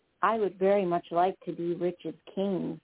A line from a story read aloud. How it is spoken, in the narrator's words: said Dilly Dally